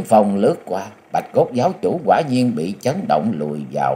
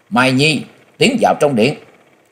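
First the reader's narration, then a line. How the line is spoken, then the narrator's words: Loud shout. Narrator (Vietnamese): Bà miệng quát lớn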